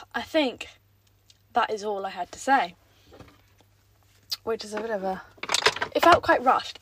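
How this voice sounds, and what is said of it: Out of breath. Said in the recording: “I don't know why I'm so out of breath... Take a breather.”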